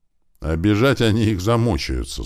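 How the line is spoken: Plain. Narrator (Russian): снова сказала Света

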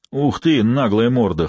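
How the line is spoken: Hoarse deep bass. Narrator (Russian): хрипло пробасил Па

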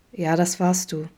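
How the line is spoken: Gentle confirmation. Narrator (German): bestätigte Vincent sanft

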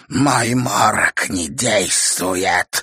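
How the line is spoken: Woman, angry shout. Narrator (Russian): злобно крикнула женщина

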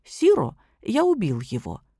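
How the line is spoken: Calm reply. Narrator (Russian): сосед совершенно спокойно ответил ему

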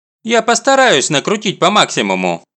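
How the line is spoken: Cheerful promise. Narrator (Russian): бодро обещает директор

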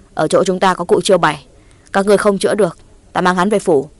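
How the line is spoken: Restrained anger. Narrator (Vietnamese): Trừ Cao Sơn dường như càng tức giận hơn, nhưng mà đối với cụ Tà Ao, gã không hẳn học như đối với Nguyễn Trác, chỉ nói

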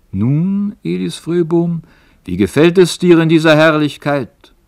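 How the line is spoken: Strong voice calling. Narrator (German): so rief eine starke Stimme

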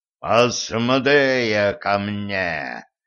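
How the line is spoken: Devil's growl. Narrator (Russian): прорычал дьявол

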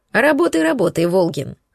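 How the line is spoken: Chuckling. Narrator (Russian): хохотнул Аверин

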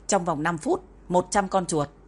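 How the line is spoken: Cold. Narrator (Vietnamese): Dạ cô Tinh lạnh lùng nói

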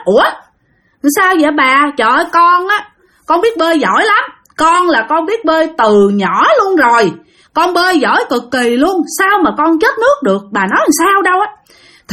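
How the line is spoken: Loud speech. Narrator (Vietnamese): nó mới lớn tiếng nói

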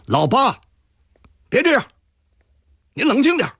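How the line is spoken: Loud voice. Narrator (Chinese): 陆尊熙高声地说

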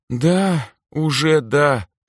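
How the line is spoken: Girl's sad sigh. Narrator (Russian): печально вздохнула девушка

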